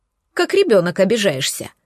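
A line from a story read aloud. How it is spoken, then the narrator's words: Snorting. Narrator (Russian): хмыкнула она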